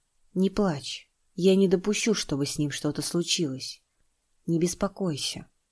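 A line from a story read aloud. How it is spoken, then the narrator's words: Quiet, confident. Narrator (Russian): Ни секунды не сомневаясь, тихо сказал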